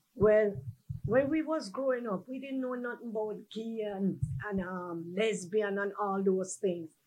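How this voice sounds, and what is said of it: Jamaican Caribbean accent. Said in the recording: “I guess from my accent, you all knew I'm from Jamaica, from the Caribbean”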